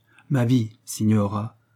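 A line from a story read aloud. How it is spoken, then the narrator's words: Graver tone. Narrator (French): reprit Michel Gritti d'un ton plus grave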